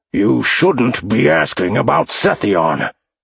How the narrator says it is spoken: Garrock growled

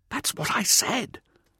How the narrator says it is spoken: Hauser whispered

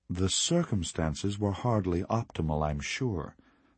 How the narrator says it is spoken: Master Bandara said

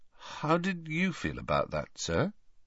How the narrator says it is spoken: asked Harry hesitantly

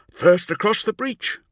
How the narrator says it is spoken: cried Nemiel

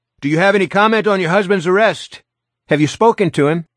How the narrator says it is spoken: Bowtie shouted at her

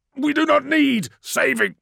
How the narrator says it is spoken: spat the man

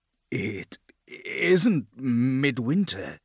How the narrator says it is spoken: Jinkar stuttered

